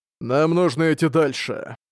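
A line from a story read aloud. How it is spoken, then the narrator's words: Cold. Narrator (Russian): император Яньфэн холодно сказал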